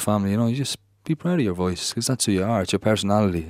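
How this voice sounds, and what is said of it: Irish Dundalk accent. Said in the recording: “the accent probably coming out there in your voice ... that Dundalk quality”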